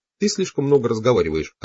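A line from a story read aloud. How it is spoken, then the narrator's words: Plain. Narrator (Russian): ответила она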